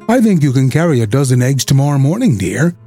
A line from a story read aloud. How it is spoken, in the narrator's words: Emmeline's mother said happily